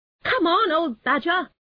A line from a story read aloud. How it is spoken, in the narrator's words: shouted the rat